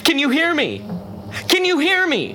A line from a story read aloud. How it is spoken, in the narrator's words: she screamed